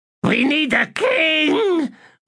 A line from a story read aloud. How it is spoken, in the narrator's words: wailed Squish